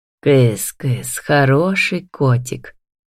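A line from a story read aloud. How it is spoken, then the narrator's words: Affectionate coaxing call. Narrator (Russian): зовет ласково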